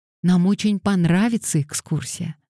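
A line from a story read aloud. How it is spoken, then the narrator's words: Excited exclamation. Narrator (Russian): воскликнула Пандора, чуть не подпрыгнув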